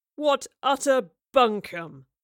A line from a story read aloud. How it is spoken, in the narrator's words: Rivers roared derisively